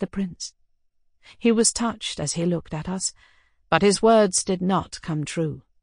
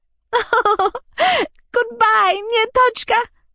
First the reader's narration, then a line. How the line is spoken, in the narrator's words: she said to me suddenly, laughing with an indescribable expression on her face